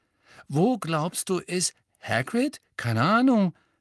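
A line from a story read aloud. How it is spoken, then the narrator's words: Worried voice. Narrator (German): sagte Ron mit besorgter Stimme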